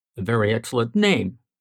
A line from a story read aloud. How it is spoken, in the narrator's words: Leonard murmured